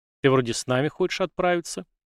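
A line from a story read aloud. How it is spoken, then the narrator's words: Snorting remark. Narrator (Russian): хмыкнул и произнес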